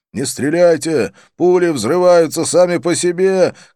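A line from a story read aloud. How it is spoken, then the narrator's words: Policeman shouting in Marathi. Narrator (Russian): крикнул один из полицейских на маратхи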